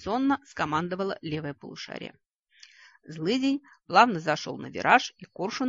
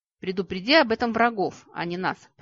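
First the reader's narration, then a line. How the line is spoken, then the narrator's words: Growled. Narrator (Russian): прорычал Витька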